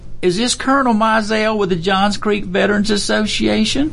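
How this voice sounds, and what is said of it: Old lady voice. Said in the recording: “excuse my little old lady voice”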